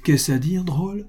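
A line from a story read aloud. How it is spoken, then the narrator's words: Angry astonished exclamation. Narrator (French): s'écria monsieur Pascal avec un mélange de courroux et de stupeur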